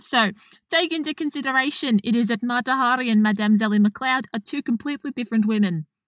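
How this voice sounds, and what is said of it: Put-on South African accent. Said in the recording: “Now you're going South African. ... I can't do Dutch, but I can do South African.”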